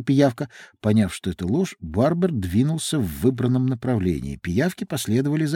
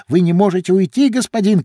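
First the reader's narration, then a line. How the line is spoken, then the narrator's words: Group shouting. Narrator (Russian): кричали они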